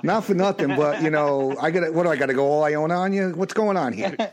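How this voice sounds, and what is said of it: Strong New York accent. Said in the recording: “I'm actually from New York... I still have an accent... Now the accent's coming out.”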